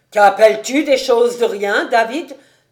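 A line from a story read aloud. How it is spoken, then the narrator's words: Booming exclamation. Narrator (French): s'écria-t-il d'une voix retentissante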